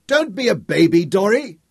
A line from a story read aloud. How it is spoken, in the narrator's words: Tom shouted